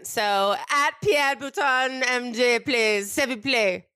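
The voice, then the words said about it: Put-on French accent. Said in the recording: “say it in your head in the French accent.”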